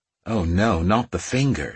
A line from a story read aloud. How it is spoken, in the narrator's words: she said, her tone as dry as the sand dunes